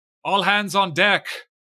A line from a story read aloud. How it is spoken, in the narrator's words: you hear him shout out